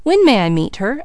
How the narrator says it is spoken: asked Leslie eagerly

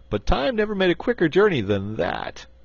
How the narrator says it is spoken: laughed Button-Bright

